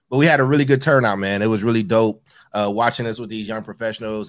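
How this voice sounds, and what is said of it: Tired, strained, nearly lost voice. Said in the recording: “I'm tired. My voice is gone.”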